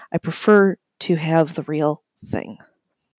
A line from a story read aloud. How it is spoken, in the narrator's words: requested